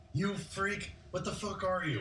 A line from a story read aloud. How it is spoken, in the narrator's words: he's yelling